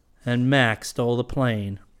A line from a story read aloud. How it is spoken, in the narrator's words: Rick said grimly